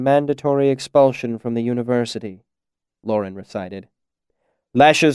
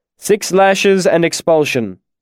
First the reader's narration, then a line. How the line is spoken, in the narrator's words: the Chancellor carried on in an official voice